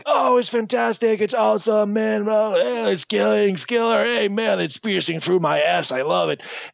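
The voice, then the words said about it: Put-on stereotypical cool guy voice. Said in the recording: “that's my impression, you know. That's my just cool guy impression.”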